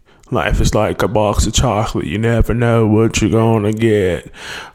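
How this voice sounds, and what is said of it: Bad Forrest Gump movie-character impression. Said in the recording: “my worst Forrest Gump impression”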